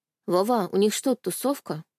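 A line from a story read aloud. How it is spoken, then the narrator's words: Sad drawl. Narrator (Russian): грустно протянула я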